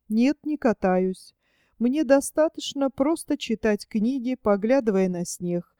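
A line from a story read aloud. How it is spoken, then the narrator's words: Plain. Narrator (Russian): ответил он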